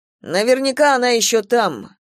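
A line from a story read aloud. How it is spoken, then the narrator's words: Gloomy. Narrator (Russian): мрачно сказал он Гидеон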